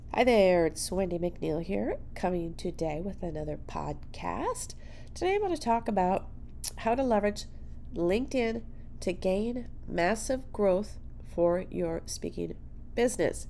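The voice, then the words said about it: Congested, nasal voice. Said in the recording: “I have a cold, so it probably sounds like I am talking out of my nose”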